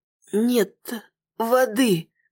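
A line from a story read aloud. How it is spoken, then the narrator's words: Wheezed. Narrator (Russian): прохрипела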